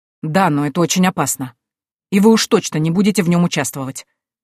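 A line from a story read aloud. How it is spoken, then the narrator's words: Irritated. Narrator (Russian): раздраженно произнес Пратчетт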